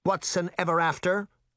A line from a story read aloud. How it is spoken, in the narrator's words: the caseworker snapped